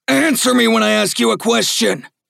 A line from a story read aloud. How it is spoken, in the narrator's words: shouted the deputy